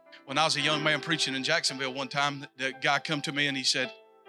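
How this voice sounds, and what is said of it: South Georgia Southern US accent. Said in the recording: “I've never been up north much. You can listen to that in my voice ... does everyone from South Georgia speak like that ... making fun of my accent. Because I said winder instead of window.”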